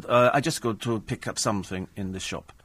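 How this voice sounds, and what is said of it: Put-on accent imitating a driver. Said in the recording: “I'll have to do the accent.”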